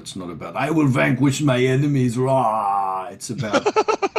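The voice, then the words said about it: Imitates another speaker's accent. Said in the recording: “You're appropriating my accent now.”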